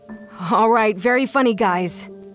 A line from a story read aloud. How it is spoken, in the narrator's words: I called out